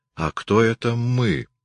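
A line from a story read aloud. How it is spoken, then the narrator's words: Quiet question. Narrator (Russian): тихо спросил Хиллери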